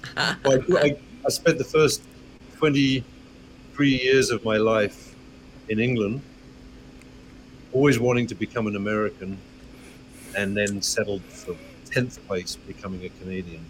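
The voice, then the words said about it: Slight accent. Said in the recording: “a slight little accent”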